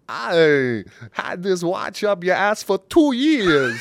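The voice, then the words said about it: Imitates another person's voice. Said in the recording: “Is that Christopher Walken? ... It's Christopher Walken, man ... it's a little Borat”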